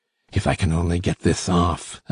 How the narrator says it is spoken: I muttered

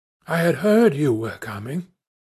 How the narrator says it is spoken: murmured

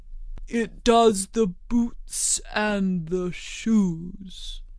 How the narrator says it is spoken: the Gryphon replied very solemnly

